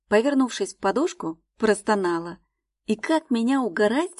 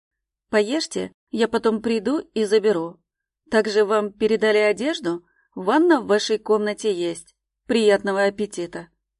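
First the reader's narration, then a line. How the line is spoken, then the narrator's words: Calm speech. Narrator (Russian): Спокойно сказал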